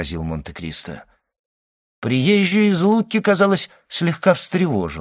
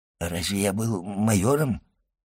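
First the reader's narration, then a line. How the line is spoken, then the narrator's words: Timid old man asking. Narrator (Russian): робко осведомился старый воин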